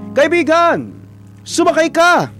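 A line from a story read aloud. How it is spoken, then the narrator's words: Rescuer shouting. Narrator (Tagalog): Sigaw ng isang rescuer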